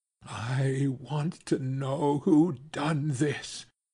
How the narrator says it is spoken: she quavered

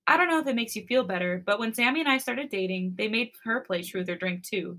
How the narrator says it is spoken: he giggles

